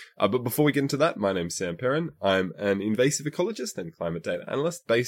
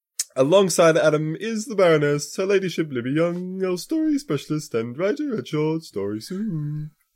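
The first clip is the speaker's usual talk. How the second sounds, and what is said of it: Put-on accent. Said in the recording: “shaping up my vocal cords. I haven't done an accent in a while, but this movie kind of calls for it.”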